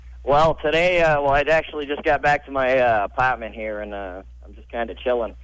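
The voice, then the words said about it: Boston-area accent. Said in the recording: “So you're from Brooklyn in 1960. ... Boston. ... This is your real accent? ... This is the real accent.”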